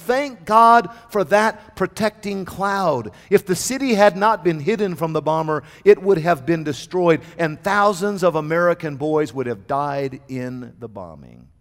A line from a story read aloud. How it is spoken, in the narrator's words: the officer exclaimed